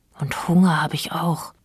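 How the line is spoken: Sigh. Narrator (German): seufzte Fjolla

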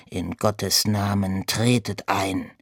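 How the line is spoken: Grumpy growl. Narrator (German): der Mönch missmutig … knurrte

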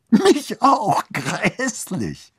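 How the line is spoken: Giggling. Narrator (German): Annabel kicherte wieder

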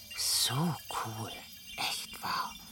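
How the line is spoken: Repeated murmuring. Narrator (German): murmelte er immer wieder

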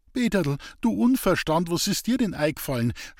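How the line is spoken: Stammering. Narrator (German): stammelte Lisbeth

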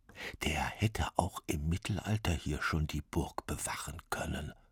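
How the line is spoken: Sly whisper. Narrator (German): flüsterte Bruckner seinen Freunden verschmitzt zu

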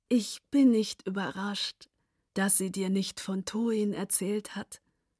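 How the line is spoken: Quiet. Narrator (German): sagte sie leise

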